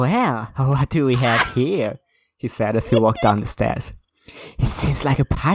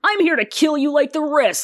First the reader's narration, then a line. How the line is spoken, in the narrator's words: he shouted in anger